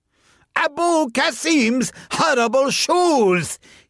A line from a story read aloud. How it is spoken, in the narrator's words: he shouted